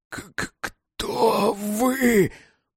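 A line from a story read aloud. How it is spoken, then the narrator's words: Wheezing rasp. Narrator (Russian): просипел Кузнецов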